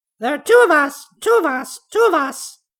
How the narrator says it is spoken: shrieked the macaw

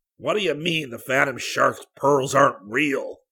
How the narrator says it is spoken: He roared

